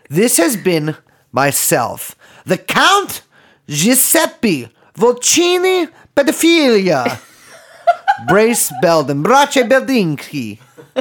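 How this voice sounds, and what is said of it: Put-on foreign accent, getting weird. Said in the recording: “That accent's getting a little weird. No, it wasn't French”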